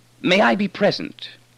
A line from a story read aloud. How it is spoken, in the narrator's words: He said urgently